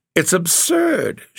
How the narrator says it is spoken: she cried

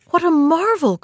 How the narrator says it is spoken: cried the princess, starting back a little

